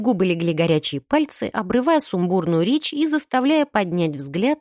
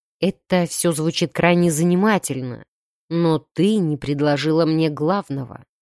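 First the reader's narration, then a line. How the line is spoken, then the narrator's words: Low purr. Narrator (Russian): промурчал Джерлок низким голосом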